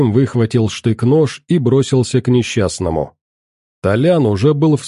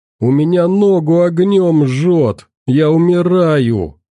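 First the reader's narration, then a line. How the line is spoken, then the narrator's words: Pained moaning. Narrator (Russian): стонал Толян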